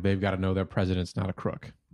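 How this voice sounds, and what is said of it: Richard Nixon impression. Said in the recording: “Richard Nixon impersonation ... It's really in the jowls ... You gotta shake your head around a little bit.”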